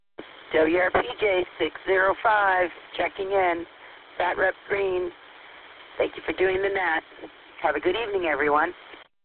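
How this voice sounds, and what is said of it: Cheerful, pleasant radio-style voice. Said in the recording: “I love to hear your voice. You just have a great, cheery radio voice.”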